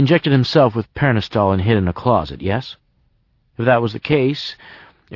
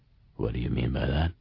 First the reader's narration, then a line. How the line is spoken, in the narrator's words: He asked calmly